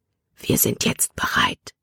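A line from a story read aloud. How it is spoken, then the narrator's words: Whispered. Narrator (German): flüsterte er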